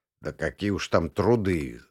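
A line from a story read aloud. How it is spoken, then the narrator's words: Grumbling. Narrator (Russian): забурчал Кудряшов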